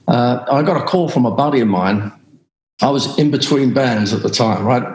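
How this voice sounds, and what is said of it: Australian accent. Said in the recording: “I had a strange accent ... I'm Aussie”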